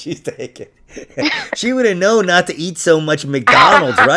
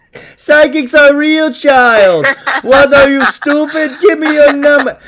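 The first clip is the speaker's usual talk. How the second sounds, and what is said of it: Put-on accent imitating another person. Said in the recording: “I can't do accents, man. I can't.”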